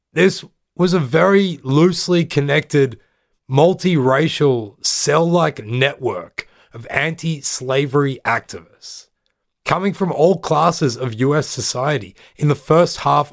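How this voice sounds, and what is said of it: Australian accent. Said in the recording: “with an Australian accent, I don't pronounce this word properly”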